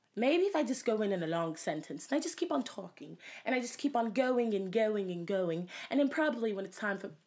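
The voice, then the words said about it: Attempted British accent, self-admittedly poor. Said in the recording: “I don't know how to say Beetlejuice in a British accent. ... it's probably the hardest one I've ever tried. ... I said probably so wrong.”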